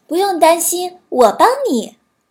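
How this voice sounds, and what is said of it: Clear, crisp little bird voice. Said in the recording (Chinese): “它用清脆的声音说”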